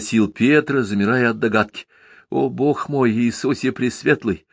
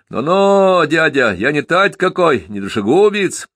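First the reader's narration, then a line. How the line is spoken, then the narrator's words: Shouting. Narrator (Russian): закричал Степка Рочев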